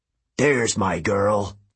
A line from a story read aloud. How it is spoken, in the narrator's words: Ares bellowed